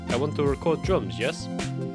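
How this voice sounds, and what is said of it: Poor attempt at Spanish accent. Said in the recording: “Sorry about the bad accent, that was meant to be Spanish, but didn't sound Spanish.”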